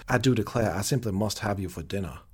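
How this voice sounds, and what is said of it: Put-on Southern belle accent. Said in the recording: “my Southern accent ... Well done.”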